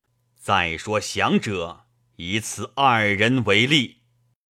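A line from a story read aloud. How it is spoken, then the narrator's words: Stern harsh voice. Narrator (Chinese): 厉声曰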